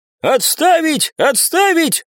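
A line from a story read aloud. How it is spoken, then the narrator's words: Shouting, running in. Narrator (Russian): закричал вбежавший в помещение куратор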